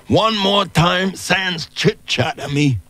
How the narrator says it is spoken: From behind the glass, Cosmo yelled

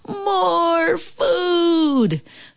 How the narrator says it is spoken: Then they all yelled

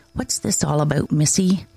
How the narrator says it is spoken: asking quietly

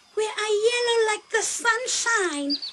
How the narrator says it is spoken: exclaimed Wame

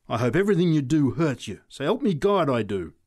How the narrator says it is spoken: she said savagely

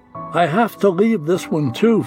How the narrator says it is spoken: Fred said

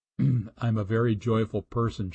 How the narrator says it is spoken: she says

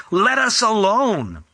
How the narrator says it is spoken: he cried out with a loud voice, saying

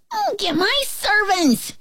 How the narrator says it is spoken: he shouted

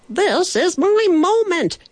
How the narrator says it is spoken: he shouted

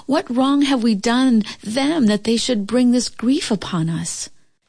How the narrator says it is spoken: the farmer pleaded

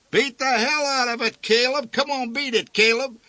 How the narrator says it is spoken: one yelled

